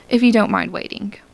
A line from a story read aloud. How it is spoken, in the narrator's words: he said harshly